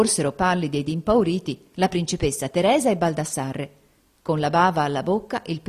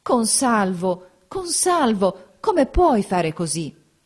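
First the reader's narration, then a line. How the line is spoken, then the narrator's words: Anguished reproach. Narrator (Italian): Teresa … esclamò con voce d'angosciosa rampogna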